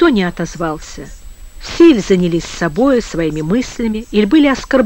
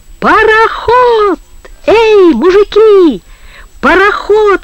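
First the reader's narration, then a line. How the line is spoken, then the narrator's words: Sudden yell. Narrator (Russian): вдруг завопил Коля База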